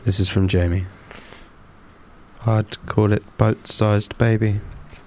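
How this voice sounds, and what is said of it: Creepy put-on reading voice. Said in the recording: “read this in my creepy voice ... read them in your creepy voice ... Creepy one.”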